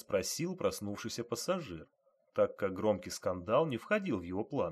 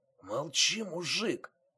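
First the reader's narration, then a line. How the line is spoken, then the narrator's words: Hoarse whisper. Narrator (Russian): хрипло прошептал вор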